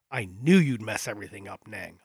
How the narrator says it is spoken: I growl

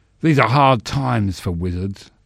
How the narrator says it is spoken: the wizard rasped

